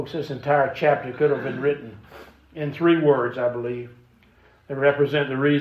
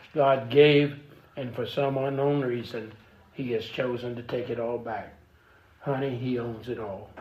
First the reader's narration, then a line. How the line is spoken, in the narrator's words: whispered